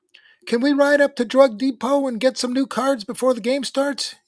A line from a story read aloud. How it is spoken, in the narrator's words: yelped Robbie